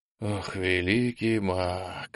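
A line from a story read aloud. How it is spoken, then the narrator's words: Whispered moan. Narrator (Russian): шепотом застонал попаданец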